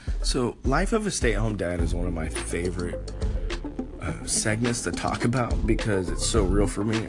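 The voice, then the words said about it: Congested voice from a cold. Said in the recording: “I don't know if you can hear it in my voice, but I got a freaking cold.”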